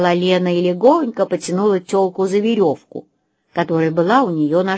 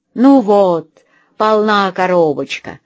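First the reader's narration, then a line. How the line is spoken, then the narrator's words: Joyful. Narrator (Russian): радостно сказала Лена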